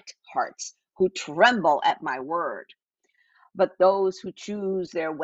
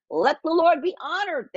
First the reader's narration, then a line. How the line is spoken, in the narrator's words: they scoff